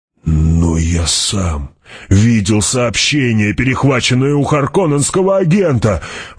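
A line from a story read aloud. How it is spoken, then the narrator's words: Exclaiming. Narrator (Russian): воскликнул Гурни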